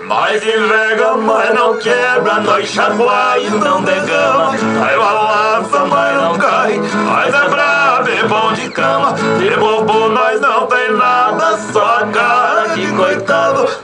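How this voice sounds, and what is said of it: Sings imitating another singer's voice. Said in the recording (Portuguese): “imitando uns amigos seus aí que cantam bem também ... Gini é assim, ó.”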